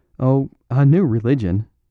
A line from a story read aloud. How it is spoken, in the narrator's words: said Flambeau, laughing